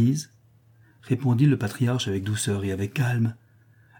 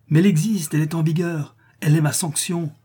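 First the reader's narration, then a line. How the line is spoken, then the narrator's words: Exclaimed. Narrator (French): s'écria Arcadius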